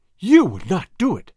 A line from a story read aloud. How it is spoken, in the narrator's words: cried the girl